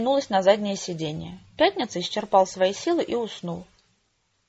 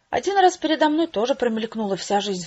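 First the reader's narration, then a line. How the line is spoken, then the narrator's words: Sighing. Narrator (Russian): вздохнул он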